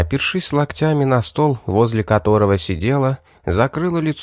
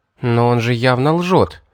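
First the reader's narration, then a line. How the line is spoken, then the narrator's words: Irritated, curt snap. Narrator (Russian): раздраженно бросила Эстер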